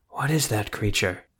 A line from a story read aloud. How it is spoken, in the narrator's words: Carmagnola whispered to the Witcher